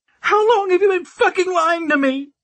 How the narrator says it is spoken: she screamed, loud enough to shatter glass

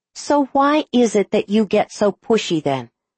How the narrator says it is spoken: asks sharply

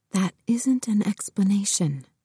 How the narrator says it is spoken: Georgie whispered back

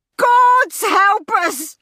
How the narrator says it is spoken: howled Mrs

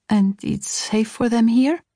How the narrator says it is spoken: I asked him hesitantly

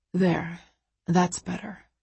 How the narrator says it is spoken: he murmurs

